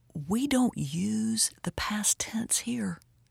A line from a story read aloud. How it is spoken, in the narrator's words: The guide looked at me with shock and whispered